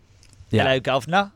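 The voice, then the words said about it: Put-on British accent. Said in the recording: “So sort of like a standard British. ... Like that, yeah. ... Like British like that.”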